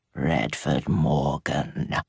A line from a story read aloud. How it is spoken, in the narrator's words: Danny purred, vixenish